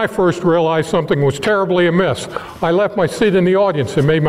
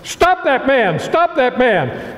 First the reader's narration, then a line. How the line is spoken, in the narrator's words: Major Rathbone shouted